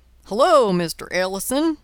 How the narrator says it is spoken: called Sam cheerfully

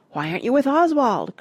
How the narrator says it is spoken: cried Simon

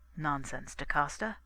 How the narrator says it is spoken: I answered

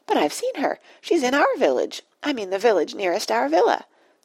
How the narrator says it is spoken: squeaked Penelope excitedly

